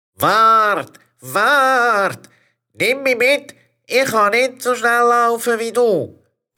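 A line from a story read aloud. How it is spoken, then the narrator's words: Frog calling loudly. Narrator (German): Frosch … so laut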